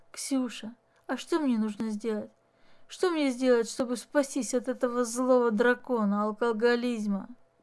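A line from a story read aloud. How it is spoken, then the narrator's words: Tender whispered question. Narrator (Russian): шепотом спросил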